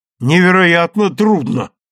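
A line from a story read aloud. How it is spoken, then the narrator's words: Exclaimed from back rows. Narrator (Russian): воскликнул кто-то из задних рядов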